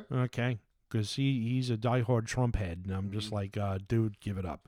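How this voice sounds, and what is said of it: New York accent. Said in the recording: “this rotten New York accent”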